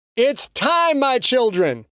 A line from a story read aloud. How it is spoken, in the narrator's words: Patterson shouted over the chanting din